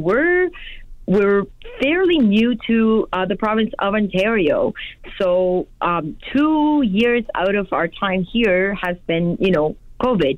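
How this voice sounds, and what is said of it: East Coast Canadian accent. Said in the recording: “East Coastern accent”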